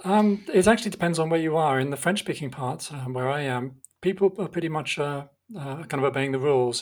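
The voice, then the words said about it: British English accent. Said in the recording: “you can probably tell from my accent that I'm originally from the UK”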